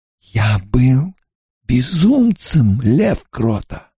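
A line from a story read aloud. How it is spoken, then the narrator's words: Hissing wizard. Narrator (Russian): прошипел волшебник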